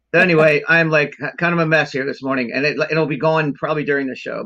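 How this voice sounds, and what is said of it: Deep, congested allergy-affected voice. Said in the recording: “I have terrible allergies this morning... got a postnasal drip, so I don't sound like this normally either... I don't have this deep, weird voice.”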